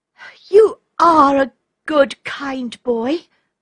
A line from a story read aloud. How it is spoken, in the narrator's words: cried Olga